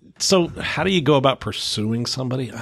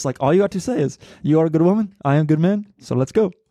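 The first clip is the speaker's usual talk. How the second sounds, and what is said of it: Imitates a movie character's accent. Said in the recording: “What accent was that? ... I don't know what accent he had.”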